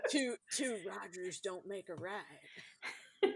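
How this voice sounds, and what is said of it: Imitates another person's voice. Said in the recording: “that voice was a pretty good impression”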